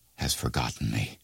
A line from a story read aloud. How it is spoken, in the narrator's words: sighed poor Rip